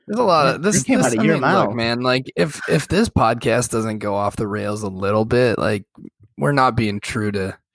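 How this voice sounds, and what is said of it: Nasal congested voice. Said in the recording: “my voice is so nasally today because this is how I get when I'm hungover ... hangover voice”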